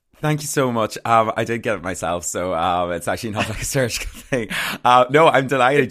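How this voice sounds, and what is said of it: Northern Irish accent, County Armagh. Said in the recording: “I love your accent ... It's from County Armagh”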